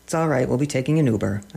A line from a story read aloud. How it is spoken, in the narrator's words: said